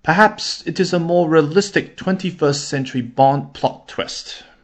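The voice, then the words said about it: Bad fake British accent. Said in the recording (Chinese): “我呢非常糟糕的模仿了一下这个英国口音。... I will stop pretending to be British, or I will stop doing a fake British accent.”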